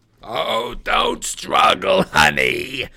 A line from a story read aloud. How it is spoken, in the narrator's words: my old math teacher cackled in my ear